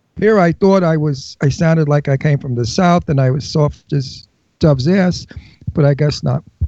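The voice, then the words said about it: Brooklyn New York accent. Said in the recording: “He loves my Brooklyn accent, and he loves my New York toughness”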